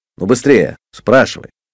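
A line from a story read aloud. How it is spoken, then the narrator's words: Angry. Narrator (Russian): сердито сказал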